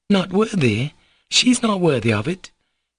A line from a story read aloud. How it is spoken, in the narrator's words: Katerina Ivanovna cried again with the same warmth